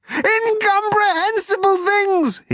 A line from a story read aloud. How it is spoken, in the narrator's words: he shouted